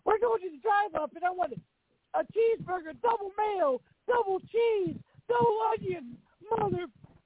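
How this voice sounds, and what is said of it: Imitates another person's voice. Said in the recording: “I do a great Jim Cornette ... that you do that impression of him”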